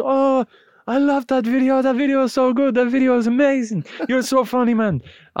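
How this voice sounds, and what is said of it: Put-on Spanish accent. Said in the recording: “I'm not even going to do the accent ... wasn't going to do the accent ... he couldn't help himself”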